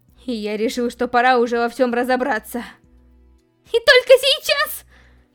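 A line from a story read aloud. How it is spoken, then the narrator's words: Furious shout. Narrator (Russian): Бешено закричала Рам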